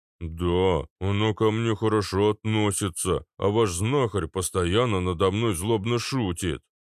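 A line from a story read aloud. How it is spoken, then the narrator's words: Offended giant's grumble. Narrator (Russian): пробурчал обиженный гигант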